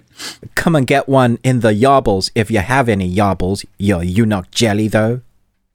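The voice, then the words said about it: Thick put-on British accent. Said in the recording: “I'm trying to put on a British accent, like bread proper thick in it.”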